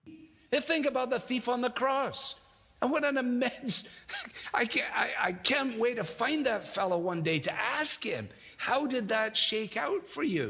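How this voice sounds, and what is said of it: Scottish accent. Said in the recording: “he says it with this great Scottish accent”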